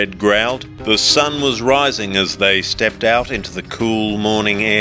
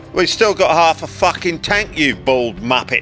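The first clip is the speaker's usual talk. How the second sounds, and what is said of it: Cockney English accent. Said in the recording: “limey-ass Cockney accent”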